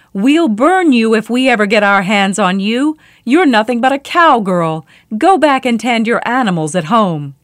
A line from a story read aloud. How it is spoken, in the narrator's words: they shouted back